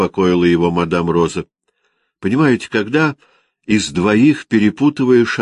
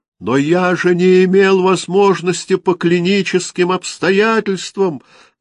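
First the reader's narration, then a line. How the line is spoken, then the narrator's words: Groaning. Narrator (Russian): простонал мсье Кадир Юсеф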